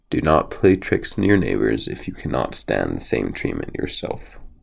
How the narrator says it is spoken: When the fox lost his temper, the stork said calmly

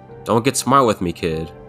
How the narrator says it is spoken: laughed

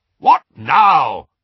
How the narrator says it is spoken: barked Uncle Vernon

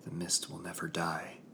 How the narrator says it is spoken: I whispered

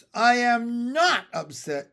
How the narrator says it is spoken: yelled Ramona

